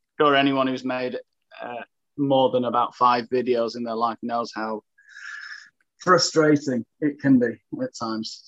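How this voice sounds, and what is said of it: English accent from Sheffield. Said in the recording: “judging by your accent uh, and and the name of your YouTube channel, I, I assume you are English ... I'm from Sheffield”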